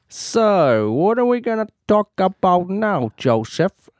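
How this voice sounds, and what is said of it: Old-time gangster character voice. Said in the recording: “I don't know why I'm doing this voice ... it hurts my mouth ... Are you being a 1940s gangster? ... I might well be, or it might be 1930s”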